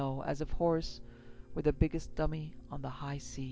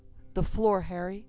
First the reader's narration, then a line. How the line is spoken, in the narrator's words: He suddenly bit the words off, asked